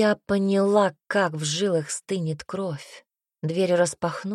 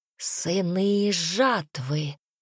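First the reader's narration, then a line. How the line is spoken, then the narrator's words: Hoarse creature's rasp. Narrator (Russian): хрипело существо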